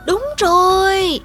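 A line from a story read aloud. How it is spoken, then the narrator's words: Amazed young voices shouting. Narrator (Vietnamese): Hai trong số những cư dân ít tuổi thì kinh ngạc trong sự khâm phục và đã dũng cảm hét to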